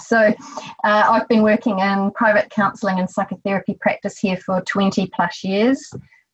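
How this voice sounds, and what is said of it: New Zealand accent. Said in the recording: “from my accent, you know that I'm a Kiwi from New Zealand”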